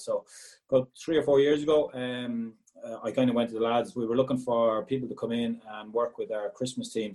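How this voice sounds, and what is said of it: Irish Galway accent. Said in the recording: “I still have a Galway accent because people slag me that I've picked up a Dublin twang or a UK twang, so nice to hear the Galway accent is still there”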